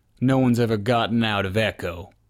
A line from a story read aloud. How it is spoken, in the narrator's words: the man said with a sneer